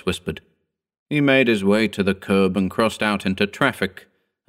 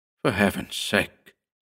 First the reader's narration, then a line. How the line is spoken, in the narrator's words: Loyce muttered, sickened